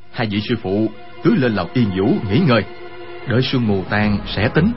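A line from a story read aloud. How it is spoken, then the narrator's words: Worried, lowered voice. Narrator (Vietnamese): Quách Tĩnh sợ hai vị sư phụ gặp chuyện bất trắc, hạ giọng nói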